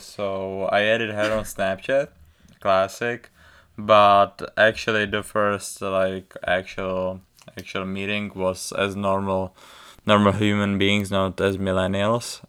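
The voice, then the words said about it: Thick foreign accent. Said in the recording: “my thick accent”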